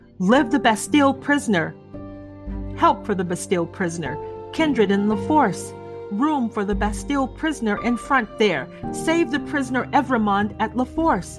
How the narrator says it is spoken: a thousand answering shouts

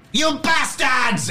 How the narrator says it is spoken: Zhukova screaming

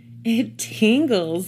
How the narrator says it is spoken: giggled Mandy

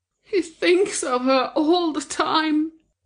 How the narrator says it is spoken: moaned to herself

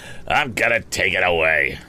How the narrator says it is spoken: growled Andy

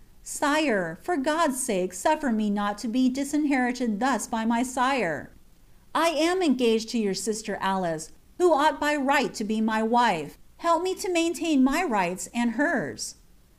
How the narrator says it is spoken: cried for aid, saying

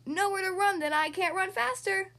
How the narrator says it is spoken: Fooly shouts

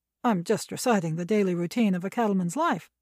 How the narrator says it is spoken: he said quickly

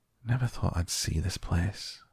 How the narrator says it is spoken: he said at last in a whisper

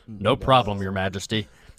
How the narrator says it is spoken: says

